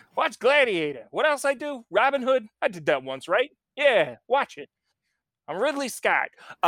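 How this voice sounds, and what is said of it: Imitates another person's voice. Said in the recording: “my perfect Ridley Scott impression”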